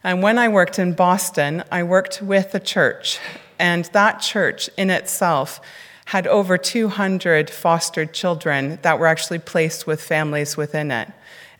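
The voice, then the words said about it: Canadian accent. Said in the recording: “as you can hear from my funny accent, I'm not actually from here. I'm originally from Canada”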